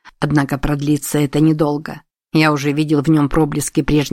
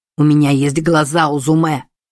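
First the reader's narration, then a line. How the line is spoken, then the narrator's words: Barked. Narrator (Russian): рявкнул Сусаноо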